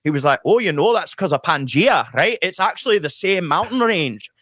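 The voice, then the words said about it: Good put-on Scottish accent. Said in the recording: “That's a really good Scottish accent”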